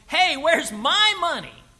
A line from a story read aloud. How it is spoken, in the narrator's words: the man yells